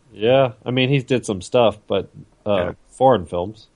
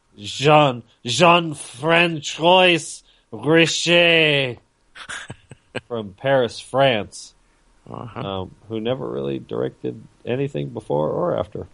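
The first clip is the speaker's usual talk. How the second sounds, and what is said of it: Put-on French accent. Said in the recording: “Say it with the accent.”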